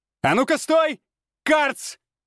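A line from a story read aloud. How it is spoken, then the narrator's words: Shouted after someone. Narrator (Russian): крикнул я ему вслед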